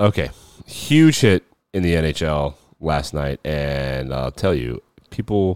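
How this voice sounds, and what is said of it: Usual voice. Nothing is said of it.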